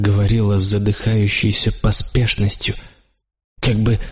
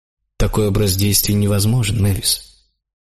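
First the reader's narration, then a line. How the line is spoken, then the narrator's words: Said coldly. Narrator (Russian): сказал я холодно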